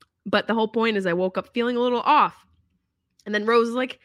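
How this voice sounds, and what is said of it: Usual voice. Nothing is said of it.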